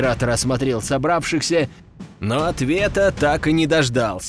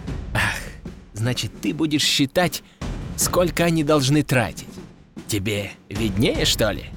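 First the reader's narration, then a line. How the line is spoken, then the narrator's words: Growling. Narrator (Russian): рыкнул император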